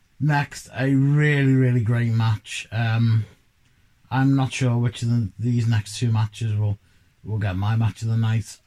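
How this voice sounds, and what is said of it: Croaky, hoarse voice. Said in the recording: “part of this illness that I've had the last couple of days. My voice is becoming croakier than usual”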